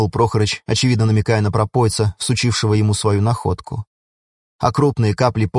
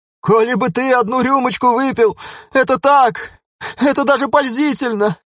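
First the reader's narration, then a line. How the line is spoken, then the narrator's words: Tearful. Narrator (Russian): говорил он сквозь слезы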